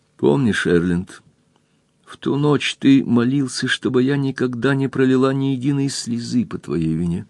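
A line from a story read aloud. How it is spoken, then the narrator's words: Quiet. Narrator (Russian): Кристин тихо ответила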